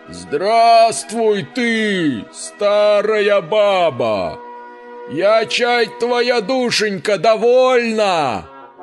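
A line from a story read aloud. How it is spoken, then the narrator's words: Loud shout. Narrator (Russian): Закричал он голосом громким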